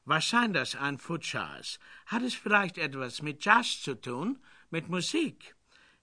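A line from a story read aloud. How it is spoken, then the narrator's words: Exuberant laugh. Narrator (German): Fifi lachte übermütig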